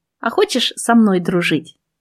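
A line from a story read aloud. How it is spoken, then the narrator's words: Plain. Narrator (Russian): спросила я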